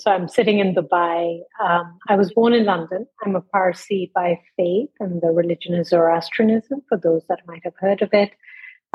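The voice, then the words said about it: Non-American accent. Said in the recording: “they'll hear that I don't sound very American.”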